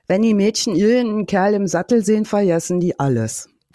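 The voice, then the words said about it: Put-on Berlin dialect. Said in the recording (German): “in Mundartform ... auf einem sehr, sehr klaren, klassischen Berlinerisch”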